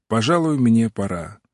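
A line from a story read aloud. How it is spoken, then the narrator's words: Cold. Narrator (Russian): Отто холодно сказал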